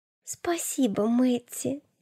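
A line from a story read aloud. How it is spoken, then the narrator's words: Whisper. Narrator (Russian): шепнула Настя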